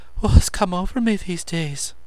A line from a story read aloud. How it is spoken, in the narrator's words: she breathed